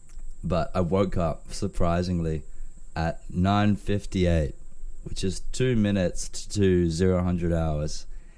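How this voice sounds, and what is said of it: Rough, worn-out sick voice. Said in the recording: “my voice is a little bit cooked, but it's because I've got some kind of cold”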